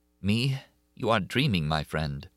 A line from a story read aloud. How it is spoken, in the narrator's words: In a trembling voice, she said